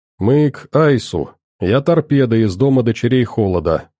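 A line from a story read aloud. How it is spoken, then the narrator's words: Calm reply. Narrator (Russian): спокойно ответила Аня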